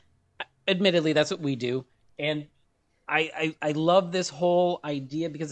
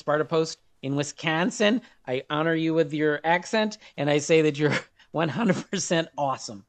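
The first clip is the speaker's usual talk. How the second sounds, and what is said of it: Bad put-on Wisconsin accent. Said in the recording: “Terrible Wisconsin accent. ... Yes, it was very bad.”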